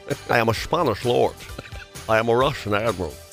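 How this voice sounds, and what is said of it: Put-on Scottish accent impression. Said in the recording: “He played a Spanish lord with a Scottish accent”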